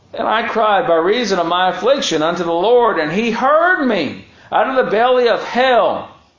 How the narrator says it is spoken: cried I

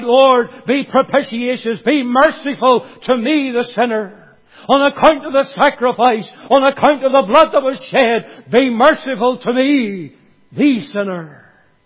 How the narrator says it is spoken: he cried

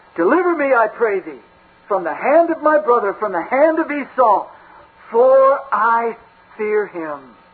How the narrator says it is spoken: Jacob cried out to God

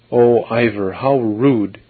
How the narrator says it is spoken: exclaimed one of the other girls

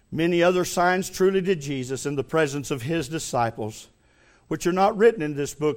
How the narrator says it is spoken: said John

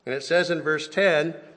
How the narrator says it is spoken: Paul says in a loud voice

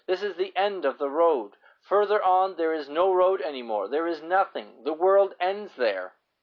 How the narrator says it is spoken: they cried anxiously

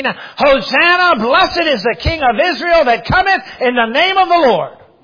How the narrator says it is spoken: they shouted out

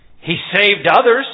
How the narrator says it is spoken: they scoffed

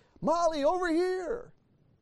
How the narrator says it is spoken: suddenly he yelled

